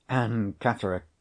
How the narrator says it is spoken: I whispered to myself with useless, helpless reiteration

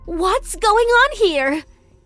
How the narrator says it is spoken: she screamed angrily

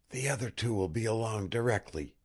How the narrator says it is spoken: whispered one of the pair

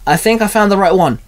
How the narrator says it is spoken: Ben called out

